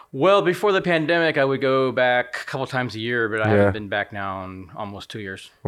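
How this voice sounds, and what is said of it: American accent. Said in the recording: “Your accent's not faded in the slightest ... How often do you go back to the States?”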